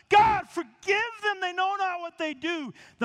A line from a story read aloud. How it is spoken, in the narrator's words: as Stephen's being stoned and he asks God to forgive them, he cries out, he shouts out to God